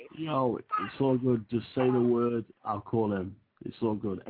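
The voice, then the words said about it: Distinctive accented English speech. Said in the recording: “That accent. Woo-wee!”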